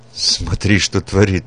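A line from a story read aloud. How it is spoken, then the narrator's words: Stunned mutter. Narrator (Russian): пробормотал потрясенный анализом Петрович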